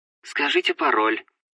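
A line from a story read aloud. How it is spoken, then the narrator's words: Soft, pleasant female voice. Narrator (Russian): мягко произнес приятный женский голос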